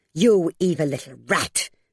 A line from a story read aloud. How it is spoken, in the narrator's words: she snarled